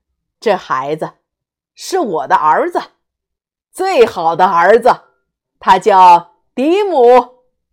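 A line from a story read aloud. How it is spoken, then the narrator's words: Loud. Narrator (Chinese): 爸爸大声的继续说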